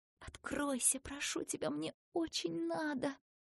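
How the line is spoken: Pleading whisper. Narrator (Russian): Ася прошептала

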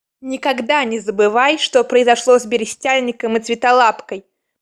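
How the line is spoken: Growl close to ear. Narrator (Russian): прорычал у самого ее уха ливень

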